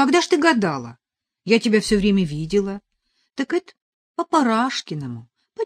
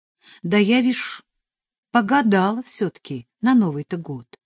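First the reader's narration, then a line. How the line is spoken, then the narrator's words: Flat expressionless voice. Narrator (Russian): ответила Катя невыразительным голосом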